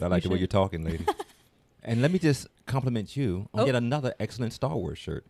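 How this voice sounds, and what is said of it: Deep, polished radio voice. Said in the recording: “amazing voice... You have a definite radio voice.”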